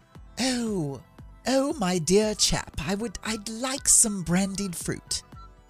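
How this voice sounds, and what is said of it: Poor put-on British accent. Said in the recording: “I'm wonderful at my accents ... You can't do the accent ... if you could have had a good British accent”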